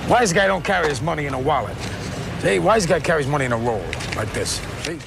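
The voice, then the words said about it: New York gangster wise guy accent. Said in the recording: “the New York accent, that was, you know, gangsters and wise guys and immigrants.”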